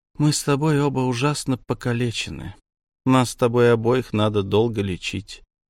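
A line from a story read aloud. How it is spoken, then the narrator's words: Surprisingly calm. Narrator (Russian): удивительно спокойно сказала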